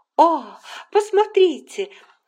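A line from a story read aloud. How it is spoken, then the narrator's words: Exclamation. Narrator (Russian): воскликнула Анна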